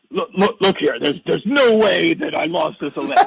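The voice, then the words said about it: Imitates another person's voice. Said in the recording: “worst Trump impression”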